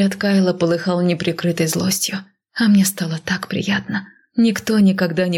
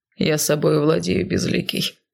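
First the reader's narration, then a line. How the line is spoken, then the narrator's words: Growling reply. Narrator (Russian): прорычал в ответ Кайл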